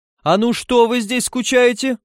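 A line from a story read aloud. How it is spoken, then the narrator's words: Yelling. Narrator (Russian): заорал он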